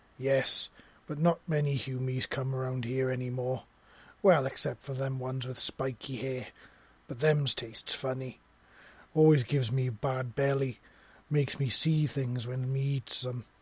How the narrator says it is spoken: said

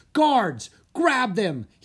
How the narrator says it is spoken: he cried

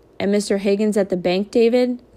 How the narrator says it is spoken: said Big Ma

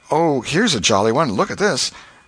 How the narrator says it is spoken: When poor Alfred, seeing that he was losing her, he did not know how, kept exclaiming

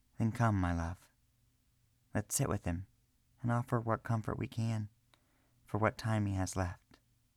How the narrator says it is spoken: Arena gently whispered

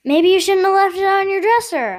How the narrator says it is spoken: yelled

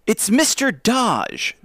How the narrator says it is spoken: Joe exclaimed

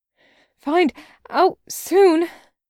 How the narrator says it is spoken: Taco panted

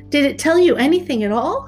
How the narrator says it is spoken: cried Gerda

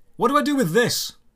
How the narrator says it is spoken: I shouted over to the woman

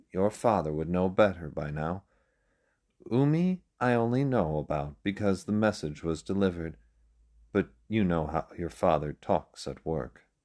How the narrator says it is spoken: With a laugh, Akome replied

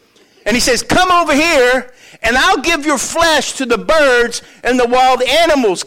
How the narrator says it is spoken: Goliath yelled

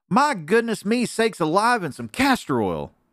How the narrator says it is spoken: cried Aunt Piffy, the nice old bear lady, waking up from a sound sleep

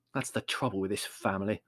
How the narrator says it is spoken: said Larry bitterly

